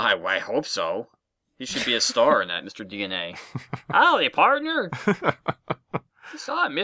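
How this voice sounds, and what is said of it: Usual voice. Nothing is said of it.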